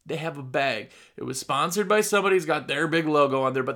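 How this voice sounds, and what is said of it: Midwestern accent. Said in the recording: “I say the word bag wrong. That's my Midwestern accent.”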